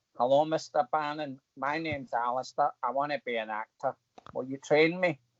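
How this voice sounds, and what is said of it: Broad local Scottish accent. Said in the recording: “I live in Coatbridge. Um, although he probably heard this accent”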